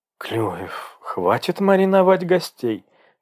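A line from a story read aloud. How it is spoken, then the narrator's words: Indignant interjection. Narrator (Russian): возмущенно вмешалась она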